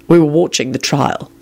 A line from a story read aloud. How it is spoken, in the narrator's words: Quentin said in a deadly voice